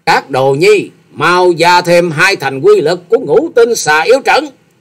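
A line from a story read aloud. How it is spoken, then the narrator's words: Furious ringing shout. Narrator (Vietnamese): Xà Hà tiên tử càng thêm giận dữ thét vang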